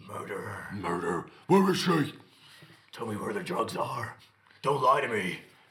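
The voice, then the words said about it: Batman character voice impression. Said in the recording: “my Batman impression ... It's good ... Bit too positive, but it's good.”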